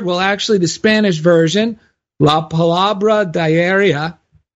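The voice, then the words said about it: Spanish words in Jersey-style accent. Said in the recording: “Did you like that accent? ... you pictured that nicely, Jersey style.”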